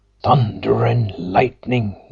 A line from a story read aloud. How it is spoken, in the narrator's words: gasped the landlord